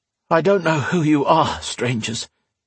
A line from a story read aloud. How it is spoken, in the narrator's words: he panted